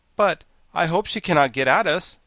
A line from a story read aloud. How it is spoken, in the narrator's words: exclaimed the Pumpkinhead with a shiver of fear